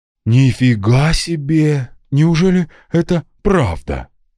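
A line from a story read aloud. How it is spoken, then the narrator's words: Excited, breathless. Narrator (Russian): взволнованно выдохнула Адель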